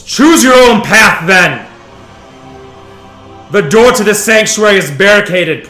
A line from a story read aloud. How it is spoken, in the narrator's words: Vaniel bellows